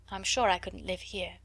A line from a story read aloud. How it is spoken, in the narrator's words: she added in a low voice